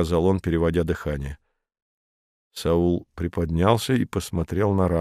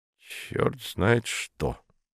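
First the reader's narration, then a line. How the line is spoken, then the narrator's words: Grumbling. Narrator (Russian): проворчал он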